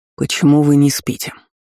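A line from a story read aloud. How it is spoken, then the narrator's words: Stern question. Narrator (Russian): строго спросил старший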